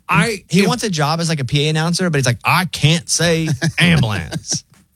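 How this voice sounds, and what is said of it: Thick Southern American accent. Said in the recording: “My accent's so thick ... it's still a Southern accent.”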